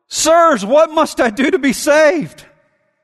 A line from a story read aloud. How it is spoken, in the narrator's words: this guy cried out